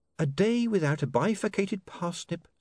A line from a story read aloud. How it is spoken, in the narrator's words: said Saccharissa sweetly